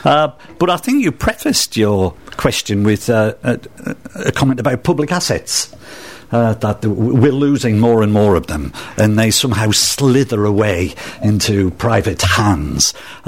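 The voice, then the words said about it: Northeast English accent. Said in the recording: “I'm not a Bristolian, as you can probably tweak from my accent ... where is it, Manchester? ... No, I'm a northeasterner. I'm from Sunderland.”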